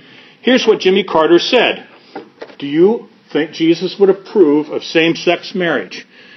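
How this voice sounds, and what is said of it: Usual voice. Nothing is said of it.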